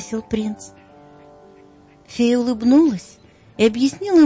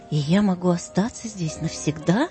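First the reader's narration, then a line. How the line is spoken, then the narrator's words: Plain. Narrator (Russian): спросил он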